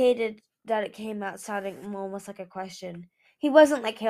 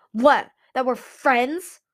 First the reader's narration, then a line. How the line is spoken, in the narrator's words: Winter spat